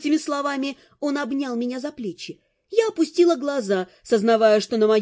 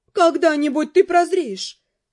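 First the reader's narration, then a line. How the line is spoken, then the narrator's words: Sad mother-in-law. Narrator (Russian): печально свекровь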